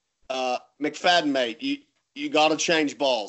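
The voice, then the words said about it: Put-on British accent. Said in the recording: “in his British accent”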